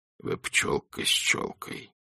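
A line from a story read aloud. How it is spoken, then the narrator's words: Whispered. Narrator (Russian): прошептал он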